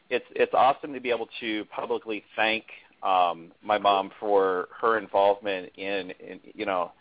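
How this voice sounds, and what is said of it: Voice choked with emotion. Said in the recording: “I'm getting choked up”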